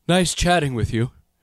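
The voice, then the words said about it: Imitates another person's voice. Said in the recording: “is my Bill Murray or my Keanu Reeves better in terms of an impersonation ... It's Keanu ... That's pretty good ... Clearly, you moonlight as a professional impersonator.”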